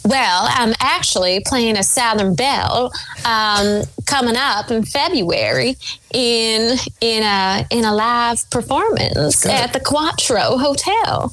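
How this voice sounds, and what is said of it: Put-on Southern accent, pretty good. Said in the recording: “Give me a southern accent. ... That's pretty damn good.”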